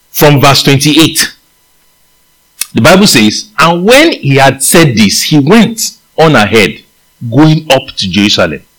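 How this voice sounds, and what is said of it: Nigerian accent. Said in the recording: “I might be using my Nigerian accent”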